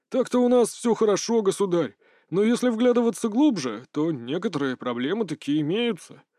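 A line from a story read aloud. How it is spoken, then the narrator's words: Forced out. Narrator (Russian): выдавил он из себя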